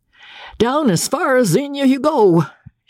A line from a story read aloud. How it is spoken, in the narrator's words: shouted Captain Andy at the top of his voice